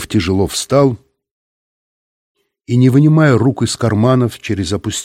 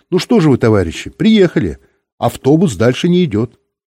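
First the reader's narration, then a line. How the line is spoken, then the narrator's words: Cheerful. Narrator (Russian): Бортпроводница весело сказала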